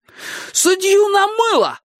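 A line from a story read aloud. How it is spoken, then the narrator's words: Shout. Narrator (Russian): закричал Анести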